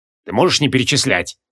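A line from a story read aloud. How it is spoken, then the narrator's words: Growling with mouth full. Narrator (Russian): с набитым ртом зарычал на него Креол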